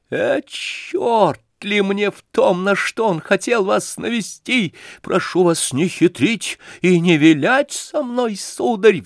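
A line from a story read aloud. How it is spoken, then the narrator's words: Shrill shriek. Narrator (Russian): взвизгнул Ганя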